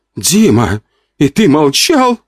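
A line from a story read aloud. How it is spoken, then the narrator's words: Exclamation. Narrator (Russian): Воскликнула Вика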